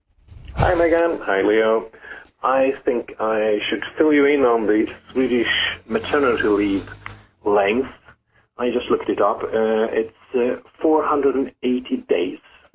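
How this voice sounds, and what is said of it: Swedish accent. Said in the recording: “my Swedish accent ... This guy sounds just like when I talk to Verdi Herdi. This is what he sounds exactly.”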